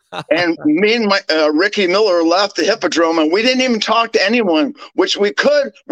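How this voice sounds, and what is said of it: American accent. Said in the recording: “We're Americans... I'm an American... With that accent”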